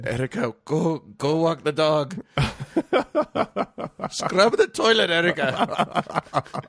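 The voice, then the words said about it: Faint Japanese accent. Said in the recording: “I'm doing a faint accent, her mom was Japanese”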